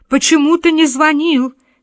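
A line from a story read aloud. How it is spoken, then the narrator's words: Mother shouting back. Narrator (Russian): кричала в ответ мать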